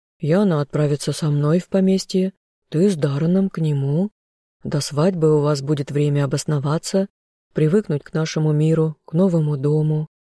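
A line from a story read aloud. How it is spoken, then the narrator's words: Soft smiling. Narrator (Russian): мягко улыбнулся Бронс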